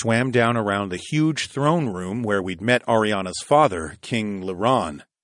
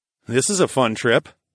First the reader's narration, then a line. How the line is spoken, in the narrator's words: I called out to my wives